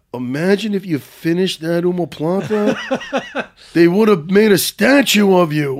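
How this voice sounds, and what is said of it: Imitates another person's voice. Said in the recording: “that was the best impersonation I've ever heard of him.”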